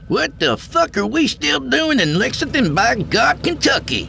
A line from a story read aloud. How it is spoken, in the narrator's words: Yancey squealed like a pig in heat